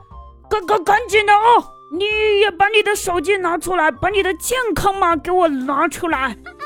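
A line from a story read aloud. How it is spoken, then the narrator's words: Hurried shouting. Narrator (Chinese): 嘴里面还喊着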